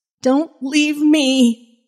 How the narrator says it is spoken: Jenny cried

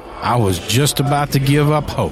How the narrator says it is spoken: he added with a roar of laughter

